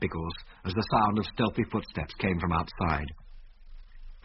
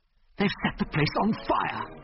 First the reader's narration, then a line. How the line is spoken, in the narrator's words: gasped Biggles